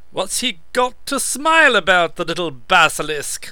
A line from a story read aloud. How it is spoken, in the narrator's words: the monster had snorted